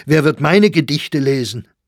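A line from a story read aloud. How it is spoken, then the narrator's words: Exclaimed. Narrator (German): rief Sachsberger aus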